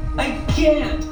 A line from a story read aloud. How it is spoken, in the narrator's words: Her voice sounded strained